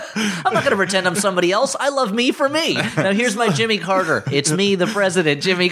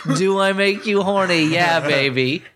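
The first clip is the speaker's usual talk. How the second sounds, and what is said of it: Austin Powers character voice. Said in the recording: “my Austin Powers impression.”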